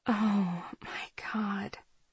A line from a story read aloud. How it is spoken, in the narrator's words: I whisper